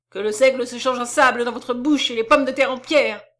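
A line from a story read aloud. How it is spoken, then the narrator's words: Furious, desperate outcry. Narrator (French): s'écria-t-il furieux et désespéré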